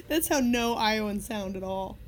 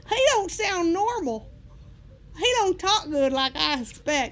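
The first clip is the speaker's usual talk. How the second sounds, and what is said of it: Exaggerated rural Midwestern voice. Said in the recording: “That's how I'm imagining that you sounded. ... Iowans sound more like Kid Rock”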